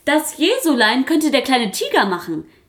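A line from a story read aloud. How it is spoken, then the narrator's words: Called out. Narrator (German): rief Maya Papaya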